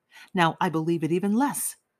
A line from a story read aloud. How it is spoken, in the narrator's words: Zamatov said hastily